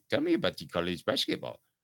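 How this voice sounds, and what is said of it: Put-on Martian-style accent. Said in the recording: “that was some sort of Martian uh, accent I tried to do”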